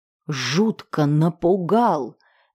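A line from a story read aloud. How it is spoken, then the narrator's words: Agitated girl hissing. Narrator (Russian): девушка зашипела на парня, ее сердце сходило с ума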